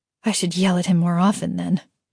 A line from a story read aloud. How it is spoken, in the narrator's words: she muttered